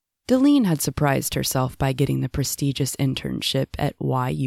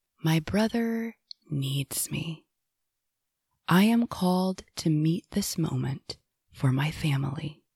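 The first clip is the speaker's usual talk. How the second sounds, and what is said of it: Calm, serene Zen voice. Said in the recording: “in her newfound Zen voice.”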